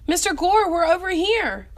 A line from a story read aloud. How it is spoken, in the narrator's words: Mo shouted